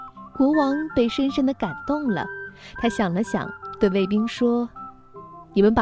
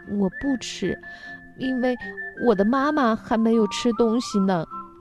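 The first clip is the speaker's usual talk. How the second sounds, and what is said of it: Low, deep voice. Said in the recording (Chinese): “用低沉的声音说”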